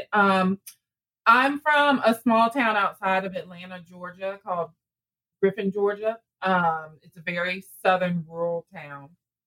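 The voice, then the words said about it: Southern US drawl. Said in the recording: “I'm sure you can all hear my accent ... The southern drawl ... Southern drawl.”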